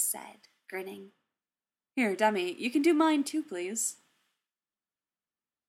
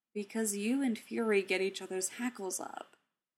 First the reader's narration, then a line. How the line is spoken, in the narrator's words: Steve said, his voice patient